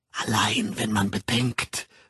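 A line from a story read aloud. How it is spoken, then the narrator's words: Hoarse whisper. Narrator (German): flüsterte sie heiser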